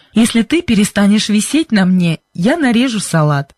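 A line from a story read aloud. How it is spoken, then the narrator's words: Said, then laughing. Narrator (Russian): сказал он и засмеялся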